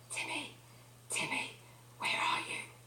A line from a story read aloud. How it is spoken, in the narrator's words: whispering